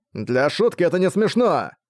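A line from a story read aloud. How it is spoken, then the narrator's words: Shouting crowd. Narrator (Russian): Они кричали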